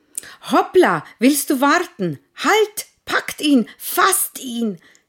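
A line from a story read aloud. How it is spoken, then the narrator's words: Shouting over each other. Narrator (German): schrien sie durcheinander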